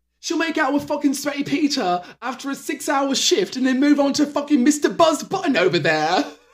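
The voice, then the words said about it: Put-on accent imitating another person. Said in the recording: “I was not anticipating the accent, ... maybe you should play James Kennedy.”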